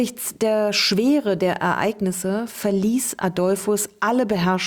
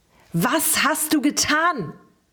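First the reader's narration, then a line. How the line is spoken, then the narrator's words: Angry scream. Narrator (German): schrie er erneut wütend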